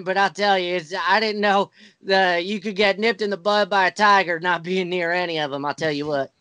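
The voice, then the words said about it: Southern accent. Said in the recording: “for some reason I have a Southern accent ... it's like a universal white trash accent ... his mother sounded like she was from like a trailer in Alabama”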